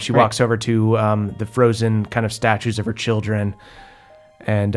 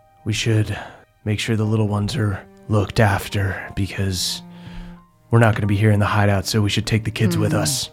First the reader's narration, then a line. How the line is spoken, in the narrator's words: a very serious look, and she sighs and she goes